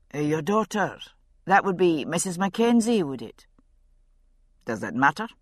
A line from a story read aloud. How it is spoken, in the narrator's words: He spoke coldly